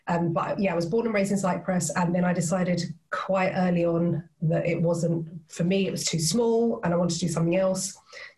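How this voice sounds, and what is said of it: British-sounding English accent. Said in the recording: “my mum's British, hence the accent.”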